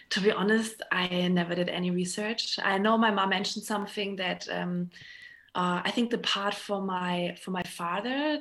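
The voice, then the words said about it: German accent. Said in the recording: “we are German... that's probably why I don't get rid of my accent”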